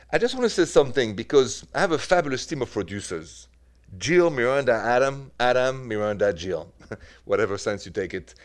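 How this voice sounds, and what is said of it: French accent. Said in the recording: “Accent is French.”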